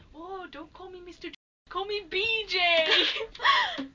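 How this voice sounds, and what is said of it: Put-on Welsh accent. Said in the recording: “I'll put on my accent anyway. I'll fool you into thinking I'm Welsh.”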